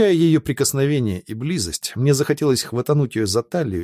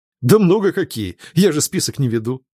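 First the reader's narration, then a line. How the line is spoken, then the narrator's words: Laughing. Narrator (Russian): рассмеялся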